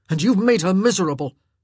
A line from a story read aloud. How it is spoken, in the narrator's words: Anthony growled